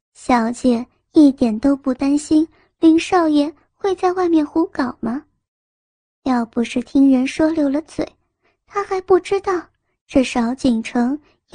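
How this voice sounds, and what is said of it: Quiet, hushed voice. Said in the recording (Chinese): “小小声的说道”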